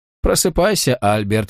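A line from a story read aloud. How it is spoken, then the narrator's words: Cheerful. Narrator (Russian): весело произнес доктор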